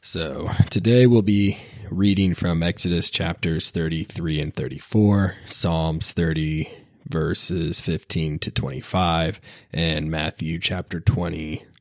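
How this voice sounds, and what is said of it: Sick, rough-sounding voice. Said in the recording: “Still feeling a little bit under the weather, so I apologize for my voice and if I start coughing”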